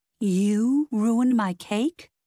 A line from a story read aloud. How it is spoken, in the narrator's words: Westmore laughed